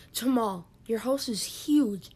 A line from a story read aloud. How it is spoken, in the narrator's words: Ray exclaimed